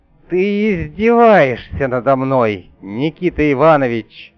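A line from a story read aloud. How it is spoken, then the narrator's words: Growled through teeth, sovereign. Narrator (Russian): Сквозь зубы прорычал государь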